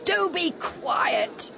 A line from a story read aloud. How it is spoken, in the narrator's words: they shouted